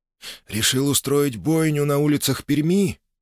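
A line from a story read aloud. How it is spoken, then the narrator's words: Sighing. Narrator (Russian): вздохнул боярин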